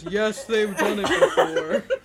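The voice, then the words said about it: Imitates another person's voice. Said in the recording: “That's a very good impression... incredible impression. Spot on”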